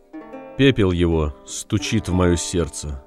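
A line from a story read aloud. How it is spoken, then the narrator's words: Plain. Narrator (Russian): сказал Уллиншпигель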